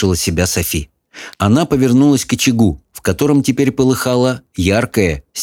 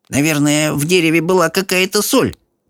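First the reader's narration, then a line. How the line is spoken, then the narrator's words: Grumble. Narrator (Russian): пробурчала Софи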